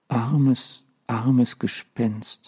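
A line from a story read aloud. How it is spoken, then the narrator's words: Quiet. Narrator (German): sagte leise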